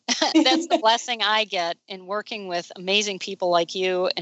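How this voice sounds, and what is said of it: Emotional, choked-up voice. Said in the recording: “Now I get emotional.”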